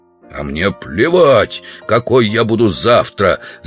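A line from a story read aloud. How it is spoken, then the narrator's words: Growling. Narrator (Russian): зарычал Удалов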